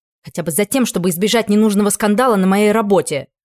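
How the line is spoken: Barked. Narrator (Russian): рявкнула я

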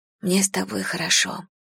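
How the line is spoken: Whispered. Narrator (Russian): прошептала Лена

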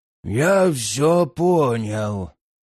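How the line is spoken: Hoarse wheeze. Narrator (Russian): просипел великий страж

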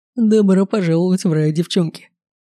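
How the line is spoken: Mocking laugh. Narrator (Russian): Посмеялся над нами гусь

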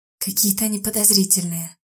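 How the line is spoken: Whispering. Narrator (Russian): прошептал Берт

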